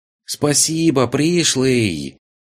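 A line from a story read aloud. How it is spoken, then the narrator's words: Shouting from behind wall. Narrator (Russian): прокричала она уже из-за стены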